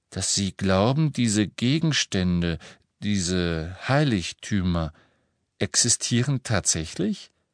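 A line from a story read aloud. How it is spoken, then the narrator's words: Slow, suppressing skepticism. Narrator (German): sagte Hermine langsam, und Harry spürte, wie sie sich bemühte, einen skeptischen Unterton zu vermeiden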